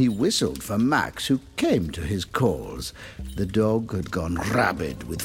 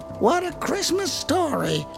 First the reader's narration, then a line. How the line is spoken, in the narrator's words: squealed Billy Sue